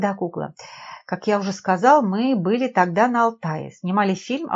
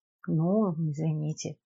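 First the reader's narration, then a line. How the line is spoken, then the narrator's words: Mumbled. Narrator (Russian): пробормотала Надежда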